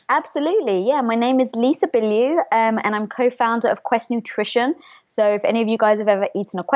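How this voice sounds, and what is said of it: Speaks with a noticeable, pleasing accent. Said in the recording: “your accent makes me so happy ... anything you say is just so beautiful. You could say anything and it just sounds so beautiful”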